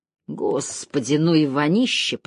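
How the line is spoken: Groaning. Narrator (Russian): простонал Кондор

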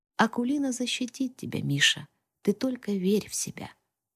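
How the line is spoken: Quiet, slightly sad speech. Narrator (Russian): улыбнулся чуть грустной улыбкой и тихонько произнес

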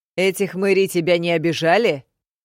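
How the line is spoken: Shouting. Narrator (Russian): Крейг заорал

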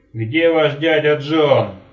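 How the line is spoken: Yelling. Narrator (Russian): заорал он

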